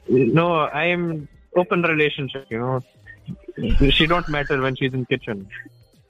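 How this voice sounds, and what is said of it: Put-on Indian accent. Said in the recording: “Are you doing an accent ... That's how we roll in India”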